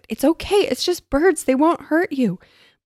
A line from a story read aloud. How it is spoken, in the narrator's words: shouted